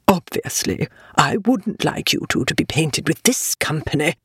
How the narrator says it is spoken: She lowered her voice to a still very audible whisper and said to the young ladies

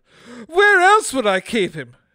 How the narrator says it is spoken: she screamed

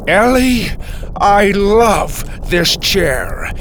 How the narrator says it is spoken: he shouted

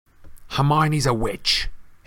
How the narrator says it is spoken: Harry snarled

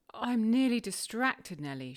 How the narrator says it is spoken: she exclaimed

